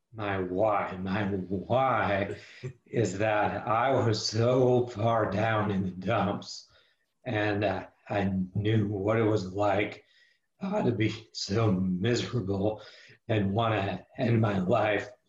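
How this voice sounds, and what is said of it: Unusual, impaired voice. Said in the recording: “As you're able to hear, my voice is problematic, and that's from an old injury on my neck ... my voice being unique”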